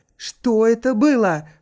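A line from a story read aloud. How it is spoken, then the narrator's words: Shouting. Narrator (Russian): прокричал Хиллари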